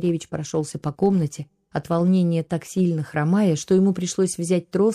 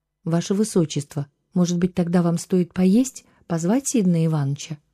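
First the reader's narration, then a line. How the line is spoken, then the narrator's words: Timid suggestion. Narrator (Russian): робко предложила Лили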